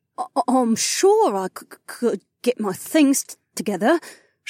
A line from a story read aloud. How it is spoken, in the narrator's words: she sputtered